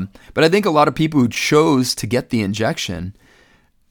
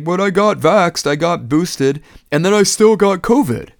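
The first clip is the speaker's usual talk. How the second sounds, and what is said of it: Silly put-on mocking voice. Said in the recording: “Sorry for the stupid voice”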